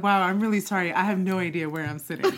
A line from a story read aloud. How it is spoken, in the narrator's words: laughed really hard at myself, and I said